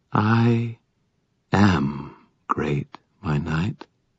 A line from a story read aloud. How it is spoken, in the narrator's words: she murmured